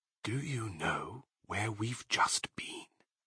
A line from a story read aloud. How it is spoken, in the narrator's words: whispered darkly